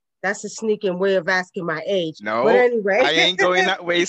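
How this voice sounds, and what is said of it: Brooklyn accent. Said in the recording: “we can still hear in, in, in your um in your accent ... We still can still hear that that that Brooklyn. You ain't lost the accent, man.”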